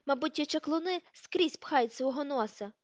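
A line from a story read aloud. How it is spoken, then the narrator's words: Frightened exclamation. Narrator (Ukrainian): вигукнула Петунія, збліднувши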